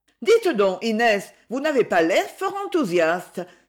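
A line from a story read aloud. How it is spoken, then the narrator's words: Sudden exclamation. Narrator (French): s'écria tout à coup Edmée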